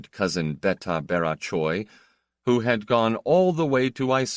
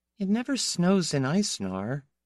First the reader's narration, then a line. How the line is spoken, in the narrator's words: Piera raised the window again, only murmuring